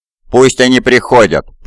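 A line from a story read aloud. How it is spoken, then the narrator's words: Growled. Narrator (Russian): прорычал он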